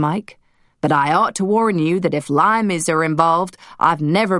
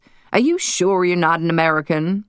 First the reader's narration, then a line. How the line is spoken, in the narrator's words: Maisie laughed